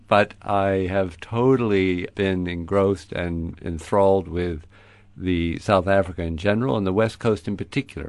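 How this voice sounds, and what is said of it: American accent. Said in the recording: “an American, as you'll hear ... I still have an American accent”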